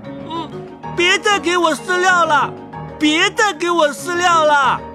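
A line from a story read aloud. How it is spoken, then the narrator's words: Shouting with all strength. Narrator (Chinese): 使出全身的力气叫喊起来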